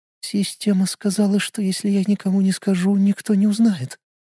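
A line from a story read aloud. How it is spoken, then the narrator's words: Whisper. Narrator (Russian): прошептала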